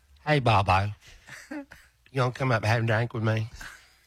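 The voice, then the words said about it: Imitates another person's voice. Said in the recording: “impersonate her”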